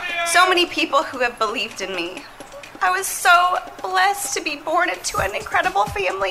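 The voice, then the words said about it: Tearful, emotional speech. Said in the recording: “she got a little emotional ... Crap, I'm crying!”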